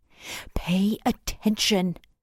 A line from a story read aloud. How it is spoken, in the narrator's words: Mum hisses beside me